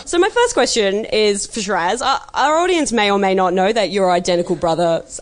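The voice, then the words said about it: Natural Australian accent. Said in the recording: “I'm talking in an Aussie accent. ... It's natural.”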